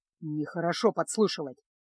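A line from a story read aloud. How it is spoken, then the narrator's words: Gruff mutter. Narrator (Russian): буркнул Кайл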